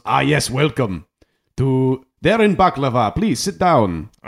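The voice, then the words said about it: Dracula-like put-on dwarf accent. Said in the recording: “you sound like a Dracula. ... This is the dwarf accent.”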